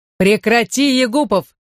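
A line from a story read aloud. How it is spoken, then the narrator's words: Men shouting. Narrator (Russian): закричали офицеры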